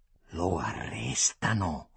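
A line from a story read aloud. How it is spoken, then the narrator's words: Hissed through teeth, shaking. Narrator (Italian): fischiò allora tra i denti Antonio del Re, col volto scontraffatto e tutto vibrante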